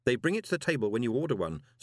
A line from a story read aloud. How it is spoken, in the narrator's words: said Moist urgently